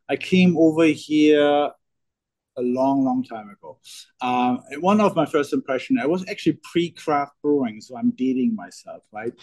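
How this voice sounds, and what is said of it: German accent. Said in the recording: “you hear from the accent, I'm German”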